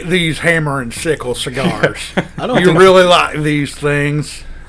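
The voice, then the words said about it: Put-on Southern US accent. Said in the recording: “Is that an Alabama accent? ... Alabama's not quite like that ... maybe South Carolina right there ... Some Louisiana in there.”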